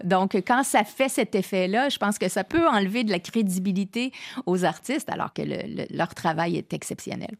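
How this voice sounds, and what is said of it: Québécois French accent. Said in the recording (French): “malgré mon accent ... artistes québécois ... notre accent”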